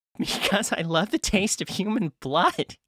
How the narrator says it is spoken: he giggled

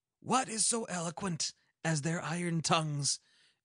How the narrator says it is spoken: exclaimed Oberon

